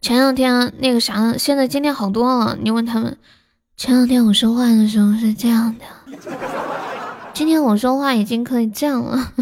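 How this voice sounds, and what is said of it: Quiet, soft strained voice. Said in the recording (Chinese): “喉咙痛，就很小声的讲话，太大声了就不舒服”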